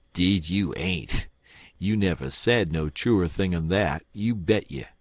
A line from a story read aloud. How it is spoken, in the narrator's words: the man with the lantern would laugh and say